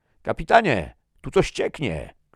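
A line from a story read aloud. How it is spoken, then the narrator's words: Soldier shouting. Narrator (Polish): krzyknął Ingeborn, jeden z żołnierzy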